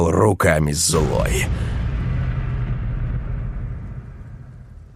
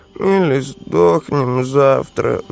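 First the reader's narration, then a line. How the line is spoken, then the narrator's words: Gloomy sigh. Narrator (Russian): вздохнул унылый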